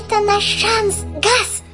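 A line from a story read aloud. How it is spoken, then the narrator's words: Squeaking. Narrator (Russian): пропищал Жак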